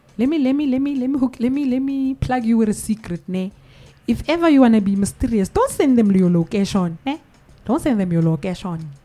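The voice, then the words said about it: Nigerian accent. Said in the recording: “even the accent, the Nigerian accent is coming out”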